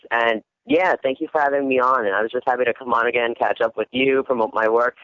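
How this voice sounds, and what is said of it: East Coast American accent. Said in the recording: “Does my accent really show that much? ... You do, but I love it. Come on, I'm from the East Coast. I love hearing the East Coast.”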